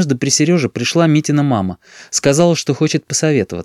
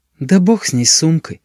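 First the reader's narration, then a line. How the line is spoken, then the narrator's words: Tired. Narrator (Russian): устало произнесла Митина мама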